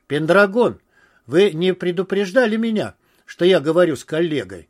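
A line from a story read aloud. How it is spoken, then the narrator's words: Exclaimed. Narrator (Russian): воскликнул Алферов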